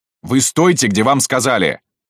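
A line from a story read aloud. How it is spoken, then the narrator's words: Barked. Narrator (Russian): рявкнул Шубин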